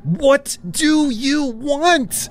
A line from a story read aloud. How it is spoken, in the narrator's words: I screamed